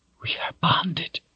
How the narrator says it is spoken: whispered intimately

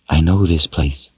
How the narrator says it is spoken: whispered

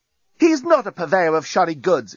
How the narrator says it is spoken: exclaimed Lucy, who, if the truth were told, was a bit hacked off by the reaction to Nettie's entrance

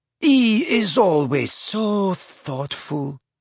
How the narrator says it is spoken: purred Fleur adoringly

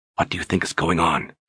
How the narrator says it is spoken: She whispered

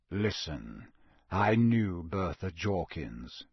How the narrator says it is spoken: said Sirius grimly

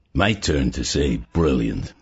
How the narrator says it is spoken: he murmured finally

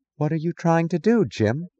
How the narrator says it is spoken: she asked, her voice incredulous and distant

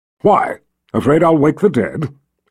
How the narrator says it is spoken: snapped

